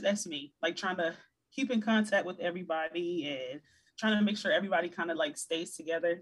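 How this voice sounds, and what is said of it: Slight Virginia accent. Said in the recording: “I noticed a bit of an accent ... I'm from Virginia ... Hampton Roads, Virginia”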